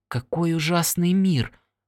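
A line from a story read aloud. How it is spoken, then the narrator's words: Whisper. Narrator (Russian): прошептала Алина Лоурел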